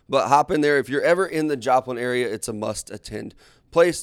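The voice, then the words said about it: Strained, hoarse voice. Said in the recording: “lose my voice from yelling”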